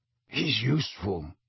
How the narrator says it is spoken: Sirius muttered

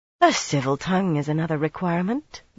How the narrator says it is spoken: Garinia murmured wryly into her cup

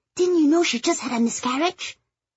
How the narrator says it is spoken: Carol whispered

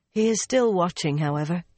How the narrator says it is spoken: she sighed

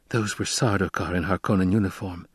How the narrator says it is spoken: Jessica whispered

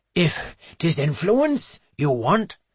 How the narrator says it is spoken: he pants

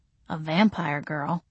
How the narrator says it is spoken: muttered

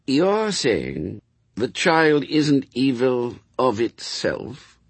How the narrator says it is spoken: he said slowly

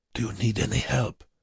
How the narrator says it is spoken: Bruckmann asked Wernicke in a low voice

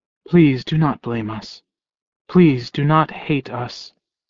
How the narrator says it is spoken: She whispered

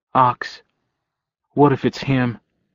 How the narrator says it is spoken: said in a small voice, a choked voice

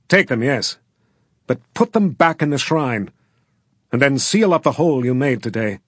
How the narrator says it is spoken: Angrily, Valentine said

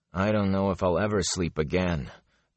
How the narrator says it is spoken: Perrin sighed

